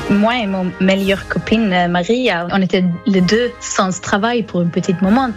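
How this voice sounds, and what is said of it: Slight Swedish accent in French. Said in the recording (French): “vous avez un petit accent ... je viens de Suède”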